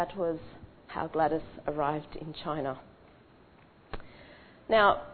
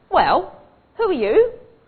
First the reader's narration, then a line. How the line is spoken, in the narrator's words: Lawson snapped